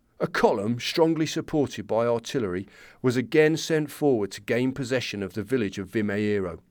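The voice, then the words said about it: Generic working-class English accent. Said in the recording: “I'm not going to do an Irish accent. I'm going to do generic working class English.”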